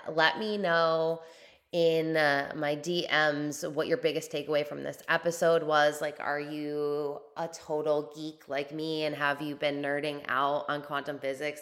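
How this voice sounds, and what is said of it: Slightly raspy, strained voice. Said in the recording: “my voice is a little raspy still and starting to hurt a little bit”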